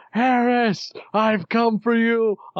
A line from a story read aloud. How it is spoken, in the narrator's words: I do yell